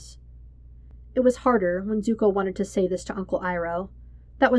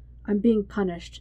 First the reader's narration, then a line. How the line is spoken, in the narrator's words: Zuko says